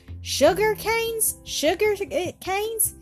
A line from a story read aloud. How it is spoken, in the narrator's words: exclaimed they all